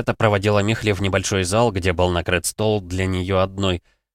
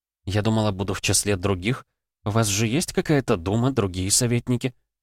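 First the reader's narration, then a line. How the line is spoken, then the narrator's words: Muttering. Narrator (Russian): бормотала Михли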